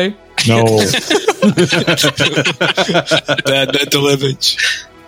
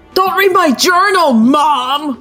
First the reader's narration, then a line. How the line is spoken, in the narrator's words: screamed Sonic